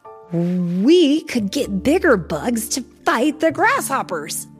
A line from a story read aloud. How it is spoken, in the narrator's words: he exclaimed